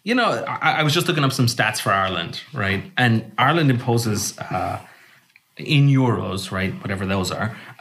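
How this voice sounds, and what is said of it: Irish accent. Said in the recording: “my accent won't give it away, but I'm from Ireland ... And it gives it away.”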